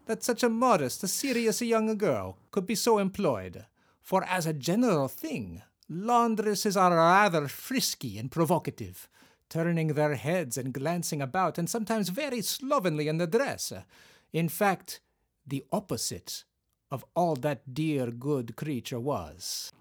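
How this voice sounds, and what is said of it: Put-on accent while reading aloud. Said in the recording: “I think you're gonna get some letters about this accent ... Is it bad? ... No, it's really fun.”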